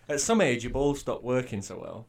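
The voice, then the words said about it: Yorkshire accent. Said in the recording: “Said that in a very Yorkshire accent.”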